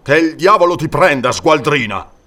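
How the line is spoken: Disgusted man growling. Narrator (Italian): ringhiò l'uomo disgustato

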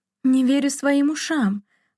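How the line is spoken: Exclaim. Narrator (Russian): воскликнула она

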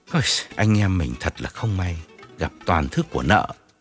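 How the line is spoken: Sighing, consoling. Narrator (Vietnamese): Điển thở dài an ủi

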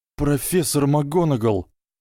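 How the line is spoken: Trembling voice. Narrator (Russian): начал Гарри дрожащим голосом

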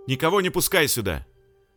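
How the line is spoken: Shouted command. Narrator (Russian): крикнул он Лехе

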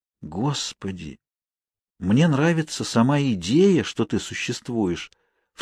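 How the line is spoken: Whisper aloud. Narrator (Russian): вслух прошептала Кейт

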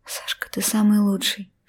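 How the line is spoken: Little rose whispering. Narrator (Russian): шептала мне в ответ розочка

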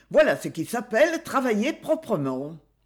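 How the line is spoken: Knight exclaiming. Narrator (French): s'écria le chevalier

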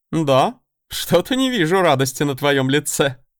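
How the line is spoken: Short chuckle. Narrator (Russian): хохотнул первый принц

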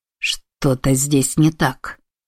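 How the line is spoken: Growling. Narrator (Russian): прорычал Широ

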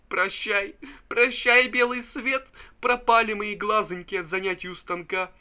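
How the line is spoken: Sobbing speech. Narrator (Russian): Пузырев рыдал и говорил

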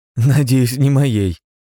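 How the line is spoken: Boy laughing. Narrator (Russian): Мальчик рассмеялся

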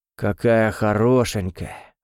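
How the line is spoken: Sighed. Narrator (Russian): вздохнул Мишель

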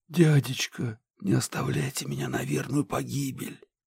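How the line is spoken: Loud whisper. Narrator (Russian): громко прошептала

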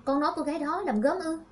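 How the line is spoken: Astonished exclamation. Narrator (Vietnamese): Lâm Tuệ Nghi liền kinh ngạc kêu lên

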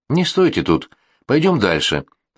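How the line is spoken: Irritated, curt. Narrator (Russian): раздраженно бросил мне Тейлер

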